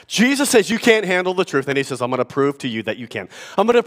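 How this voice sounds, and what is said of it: Usual voice. Nothing is said of it.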